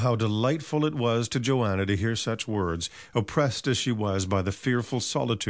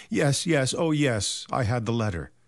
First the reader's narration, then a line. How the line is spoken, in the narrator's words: eagerly forward, saying